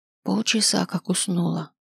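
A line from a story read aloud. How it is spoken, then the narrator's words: Grandmother whispering reply. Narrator (Russian): шепотом ответила бабушка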